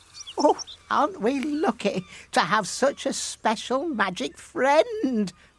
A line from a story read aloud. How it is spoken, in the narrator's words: laughed the fisherman's wife